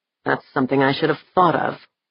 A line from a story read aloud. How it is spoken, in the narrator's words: he muttered